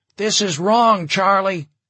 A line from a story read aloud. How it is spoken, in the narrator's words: someone shouted